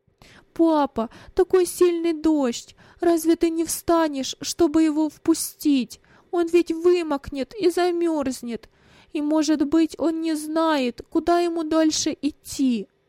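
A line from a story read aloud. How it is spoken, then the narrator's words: Speech broken by sobs. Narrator (Russian): Рыдания прерывали его речь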